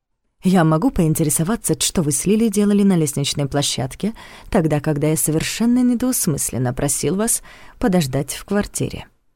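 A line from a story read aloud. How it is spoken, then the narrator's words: Deceptively calm question. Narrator (Russian): Обманчиво спокойно поинтересовался он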